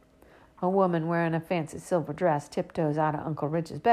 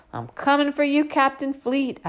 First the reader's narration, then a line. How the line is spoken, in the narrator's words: I yell out